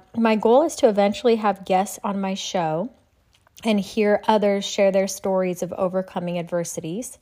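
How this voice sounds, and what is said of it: Slightly off, tired-sounding voice. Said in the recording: “my voice is a little off today. It's been a very long day.”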